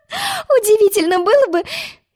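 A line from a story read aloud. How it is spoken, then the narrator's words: Giggling. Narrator (Russian): хихикнула Роза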